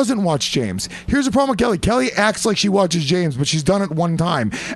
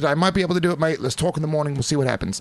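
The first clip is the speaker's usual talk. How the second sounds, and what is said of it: Put-on Australian accent. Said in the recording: “Australian accent ... It's getting ... Better ... It's getting pretty good ... Improving”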